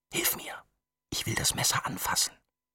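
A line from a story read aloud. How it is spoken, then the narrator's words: Whispered. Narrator (German): flüsterte sie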